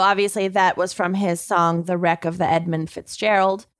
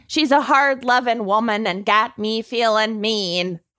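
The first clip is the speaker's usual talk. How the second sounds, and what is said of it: Put-on accent while quoting lyrics. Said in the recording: “It probably doesn't help that I'm doing the accent.”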